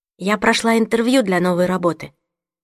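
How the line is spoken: Plain. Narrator (Russian): сказала я

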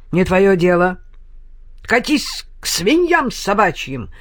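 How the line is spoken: Angry bark, losing control. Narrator (Russian): рявкнул святой отец, совсем потеряв самообладание

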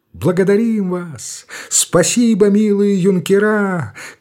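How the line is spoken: Crowd shouting thanks. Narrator (Russian): кричали

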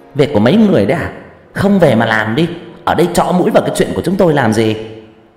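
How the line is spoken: Shrill voice. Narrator (Vietnamese): bà Béo nói bằng cái giọng the thé

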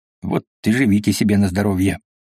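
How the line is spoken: Grumbling. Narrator (Russian): проворчал он

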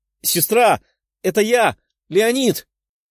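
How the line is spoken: Young man shouting. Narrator (Russian): кричал беловолосый парень

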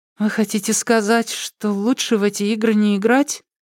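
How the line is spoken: Uncertain question. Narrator (Russian): Даша неуверенно спросила

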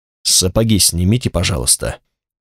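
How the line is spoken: Quiet, small executioner. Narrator (Russian): тихо сказал стоящий рядом человечек, исполнительный Тристагов палач

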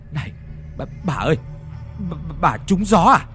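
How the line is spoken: Trembling old man's cry. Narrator (Vietnamese): Lão run rẩy cất giọng kêu lên

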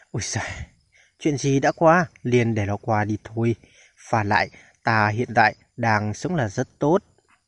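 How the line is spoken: Wry dismissive laugh. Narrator (Vietnamese): Cao Cường cười nhạt một tiếng, ... nói

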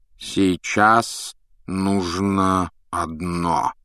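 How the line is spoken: Slow speech. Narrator (Russian): медленно проговорил Дамблдор

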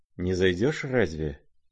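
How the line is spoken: Quiet question. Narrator (Russian): тихо спросил его князь

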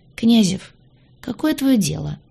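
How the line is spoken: Weary sigh. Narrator (Russian): Устало вздохнула

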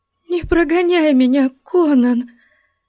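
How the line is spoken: Trembling voice. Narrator (Russian): Дрожащим голосом вымолвила она

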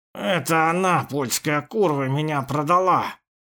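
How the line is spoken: Growl. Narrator (Russian): прорычал тот

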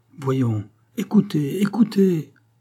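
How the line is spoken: King exclaiming. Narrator (French): s'écria le roi

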